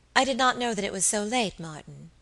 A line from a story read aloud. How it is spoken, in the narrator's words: said, in that gentle tone which always won for her the willing service of her inferiors